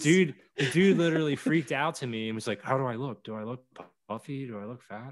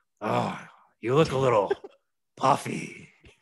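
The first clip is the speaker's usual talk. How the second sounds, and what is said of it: Impression of Vince McMahon. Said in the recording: “let me do my better Vince voice.”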